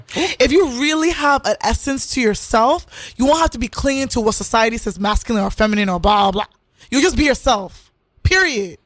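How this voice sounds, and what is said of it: Accent grows stronger when upset. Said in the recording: “your accent's coming out ... It's coming out because I'm going to be upset”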